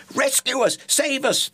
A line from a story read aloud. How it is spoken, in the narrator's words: they shrieked